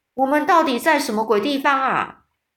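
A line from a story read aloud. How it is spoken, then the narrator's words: Sudden angry shout. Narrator (Chinese): 他突然气呼呼的，大叫着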